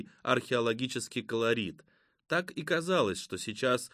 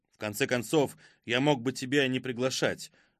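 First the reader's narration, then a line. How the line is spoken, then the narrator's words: Angry, curt man. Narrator (Russian): зло бросил мужчина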